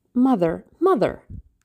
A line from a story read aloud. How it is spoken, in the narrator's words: she cried